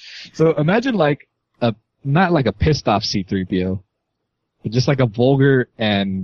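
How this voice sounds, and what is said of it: Usual voice. Nothing is said of it.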